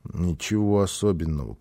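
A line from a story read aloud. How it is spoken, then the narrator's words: Child's mumble. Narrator (Russian): пробормотал малыш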